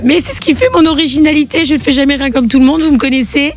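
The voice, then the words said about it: Hoarse, nearly voiceless voice. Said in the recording (French): “avec ta voix cassée ... j'ai plus de voix. J'ai une voix qui est complètement aphone”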